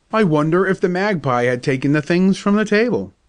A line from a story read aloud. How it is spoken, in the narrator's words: cried my father